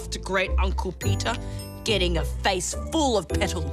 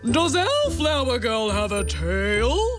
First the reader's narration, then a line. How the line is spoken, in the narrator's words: boomed Great Aunt Susan, who was a bit deaf